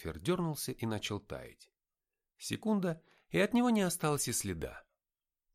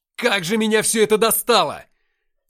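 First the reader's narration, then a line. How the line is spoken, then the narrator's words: Frustrated shout. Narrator (Russian): крикнул я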